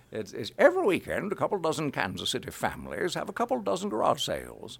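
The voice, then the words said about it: Old New England man accent. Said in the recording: “in an accent of some kind ... like the Pepperidge Farms guy ... the Pepperidge Farms announcer was an 80-year-old man from New England ... you can talk like an old man from New England”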